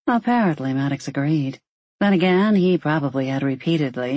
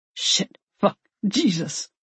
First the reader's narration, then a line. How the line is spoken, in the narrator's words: Maddox grunted